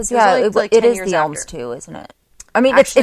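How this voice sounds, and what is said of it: Usual voice. Nothing is said of it.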